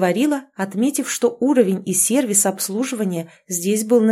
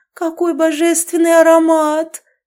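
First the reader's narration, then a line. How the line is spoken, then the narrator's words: Absorbed, moaning. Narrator (Russian): простонала, полностью поглощенная созерцанием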